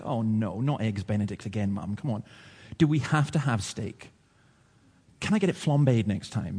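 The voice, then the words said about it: Very posh put-on accent. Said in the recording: “speaking very posh”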